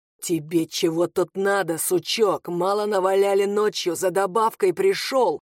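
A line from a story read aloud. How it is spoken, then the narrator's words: Growled. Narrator (Russian): Прорычал он ему в лощеное лицо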